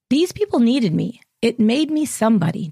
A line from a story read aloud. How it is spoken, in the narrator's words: Diane said